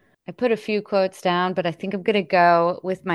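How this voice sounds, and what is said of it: Usual voice. Nothing is said of it.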